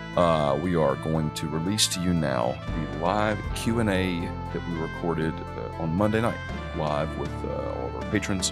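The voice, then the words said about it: Voice sounds a little weird. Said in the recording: “You may notice that my voice sounds a little weird. It's that allergy stuff.”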